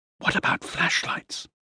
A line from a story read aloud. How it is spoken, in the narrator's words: I whispered